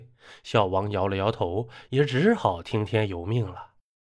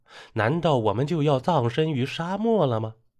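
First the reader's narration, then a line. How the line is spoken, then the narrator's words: Frightened cry. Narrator (Chinese): 魏先生在惊叫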